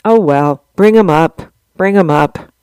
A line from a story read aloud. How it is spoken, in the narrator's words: With a sigh, he said to Tom